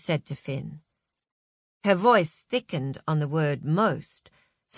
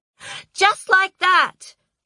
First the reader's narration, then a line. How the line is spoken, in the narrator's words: screeched the PA with satisfaction